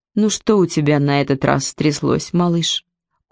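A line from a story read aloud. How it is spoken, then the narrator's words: Tired question. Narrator (Russian): устало спрашивает Пирка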